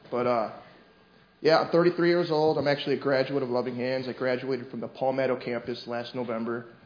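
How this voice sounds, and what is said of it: Michigan accent. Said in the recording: “I grew up in Michigan. Apparently I have an accent. ... everybody makes fun of me over it.”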